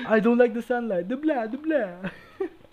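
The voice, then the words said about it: Dracula-style vampire accent. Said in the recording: “I fucking love, Dracula's accent.”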